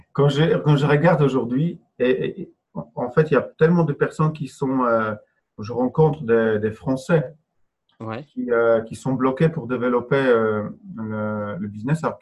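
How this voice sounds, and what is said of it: Speaks French with an accent. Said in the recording (French): “j'ai un accent”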